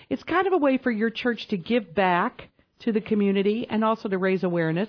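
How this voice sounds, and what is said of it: Southern country twang. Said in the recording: “My twang's about as big, too.”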